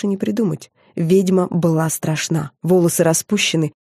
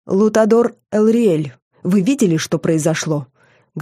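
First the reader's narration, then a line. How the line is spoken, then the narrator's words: Calm. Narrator (Russian): говорила она спокойно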